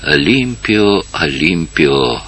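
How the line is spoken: Weak whisper. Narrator (Russian): прошептала она слабо

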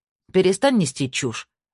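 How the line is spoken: Sharp interruption. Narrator (Russian): резко оборвала его Тина

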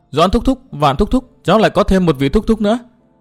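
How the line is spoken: Loud, continuing. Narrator (Vietnamese): lớn tiếng nói tiếp

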